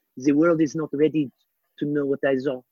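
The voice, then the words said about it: Jacques Cousteau impression. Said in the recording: “Really good impression.”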